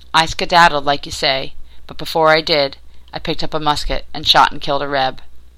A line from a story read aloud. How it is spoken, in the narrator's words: He said thickly